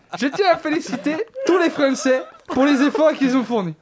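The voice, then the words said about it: Imitates another person's accented voice. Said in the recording (French): “on rigole de mon accent ... Faire des accents, ça fait marrer.”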